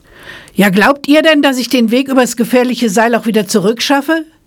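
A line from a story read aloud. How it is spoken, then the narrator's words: Calling out to crowd. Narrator (German): rief er der Menge zu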